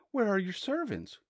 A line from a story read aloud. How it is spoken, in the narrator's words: cried she